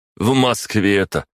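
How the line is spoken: Short chuckle. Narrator (Russian): хохотнул Василий

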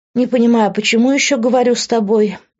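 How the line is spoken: Tired. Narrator (Russian): устало сказала я

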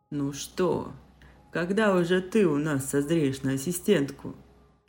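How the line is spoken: Chuckle. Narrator (Russian): хохотнул

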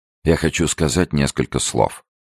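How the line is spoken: Mutter. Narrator (Russian): сделал серьезное, почти сердитое официальное лицо и пробормотал

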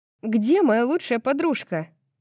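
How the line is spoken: Laughing. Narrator (Russian): Даника рассмеялась

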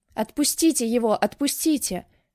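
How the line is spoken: Shouting through tears. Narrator (Russian): кричала сквозь слезы

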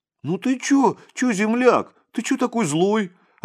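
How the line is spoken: Hurt shout. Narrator (Russian): Обиженно закричал он вслед Ласковину

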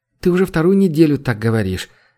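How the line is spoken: Sad wry laugh. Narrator (Russian): грустно усмехнулась Ители

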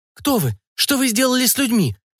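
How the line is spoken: Frightened babbling. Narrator (Russian): залепетала охотница

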